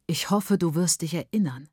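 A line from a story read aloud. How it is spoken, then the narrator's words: Plain. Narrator (German): sagte Baba Mukuru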